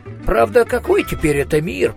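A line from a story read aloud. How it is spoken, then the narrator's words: Muttered. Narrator (Russian): пробормотал Коэн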